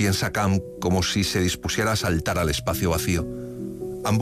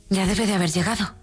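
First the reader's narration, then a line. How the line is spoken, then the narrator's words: Aloud, suddenly exhausted. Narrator (Spanish): dijo Lily Briscoe en voz alta, sintiéndose exhausta de pronto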